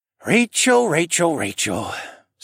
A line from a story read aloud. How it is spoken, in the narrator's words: Sir Vincent sighed